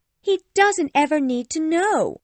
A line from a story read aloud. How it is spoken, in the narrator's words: cried Lydia joyfully